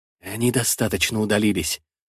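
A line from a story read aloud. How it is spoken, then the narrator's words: Whisper. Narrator (Russian): шепотом сообщает он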